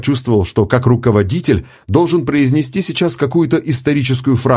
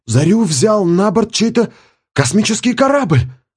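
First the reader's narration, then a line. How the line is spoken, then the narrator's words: Exclamation. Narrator (Russian): воскликнул кто-то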